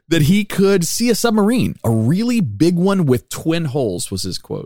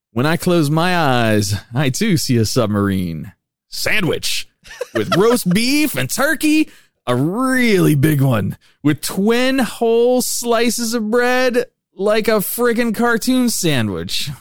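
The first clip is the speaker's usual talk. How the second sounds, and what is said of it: Weird put-on character voice. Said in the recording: “I don't know why I'm using a weird voice for the psychic's interpretation, but I am.”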